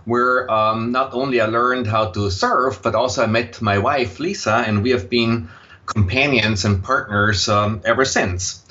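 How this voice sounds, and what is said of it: Slight Austrian German accent. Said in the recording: “you will detect a slight accent in my voice, and that accent is Austrian, German.”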